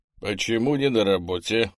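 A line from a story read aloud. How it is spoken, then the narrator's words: Displeased regimental commander. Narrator (Russian): недовольным тоном спрашивает командир полка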